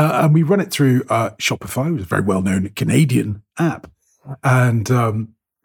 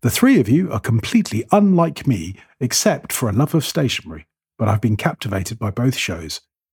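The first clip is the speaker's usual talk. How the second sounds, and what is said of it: Radio announcer voice. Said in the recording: “this is my best radio announcer voice.”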